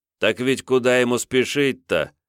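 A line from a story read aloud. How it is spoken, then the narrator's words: Relaxed snort. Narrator (Russian): расслабленно хмыкнул баварец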